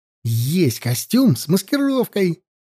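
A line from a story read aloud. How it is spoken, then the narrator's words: Joyful. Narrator (Russian): радостно сказал Серега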